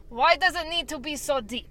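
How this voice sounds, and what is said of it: Put-on Russian accent. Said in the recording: “A Russian accent ... Russian accent.”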